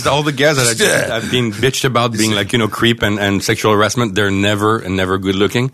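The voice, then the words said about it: French accent. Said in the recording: “You have a charming French accent.”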